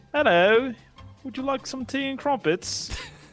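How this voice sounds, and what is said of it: Mediocre put-on English accent. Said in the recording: “How do you do an English accent? ... That's terrible. Not terrible, but it's not great either.”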